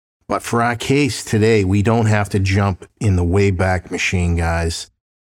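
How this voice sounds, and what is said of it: Slightly off, allergy-affected voice. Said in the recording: “my voice is still a little off ... the pollen this season is absolutely insane”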